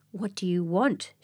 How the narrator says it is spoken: she growled, eyeing Midnight with suspicion

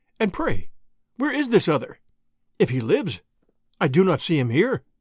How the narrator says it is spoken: answered warmly

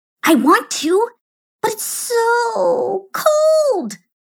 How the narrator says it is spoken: whined Juanita

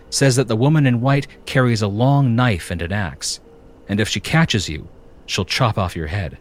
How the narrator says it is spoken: she began, her voice almost a whisper

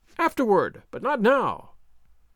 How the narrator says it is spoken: Don Diego cried, exasperated

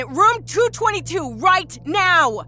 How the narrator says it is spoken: She yelled down the soundless hall

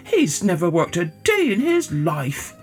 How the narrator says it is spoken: people sneered

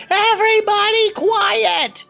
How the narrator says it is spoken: Dot yells

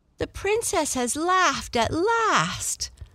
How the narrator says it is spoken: they all cried with joy

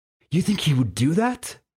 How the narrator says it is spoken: asked excitedly

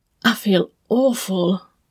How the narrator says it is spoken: Oleg wheezed

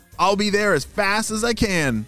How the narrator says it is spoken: shouted Ava

